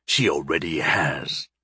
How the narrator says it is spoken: snarled the first voice

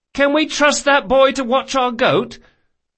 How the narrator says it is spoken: Locke cried above the din

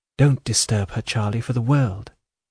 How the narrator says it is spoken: her answer softly

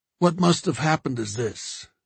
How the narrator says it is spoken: Joe said in a heavy voice

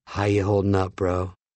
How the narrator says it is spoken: Andy, who was an active, whispered

